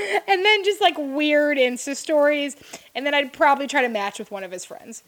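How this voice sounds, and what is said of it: Usual voice. Nothing is said of it.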